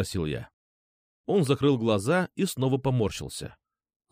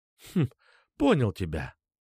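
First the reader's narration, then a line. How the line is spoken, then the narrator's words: Hmphing. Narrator (Russian): хмыкнул я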